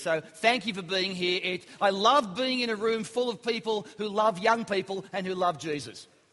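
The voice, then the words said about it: Australian accent. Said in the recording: “You probably pick from the accent, I'm not really from around here. I speak a language called Australian.”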